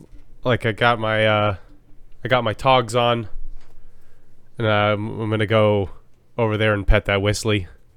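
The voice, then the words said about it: Put-on Australian accent. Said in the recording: “sounds very Australian.”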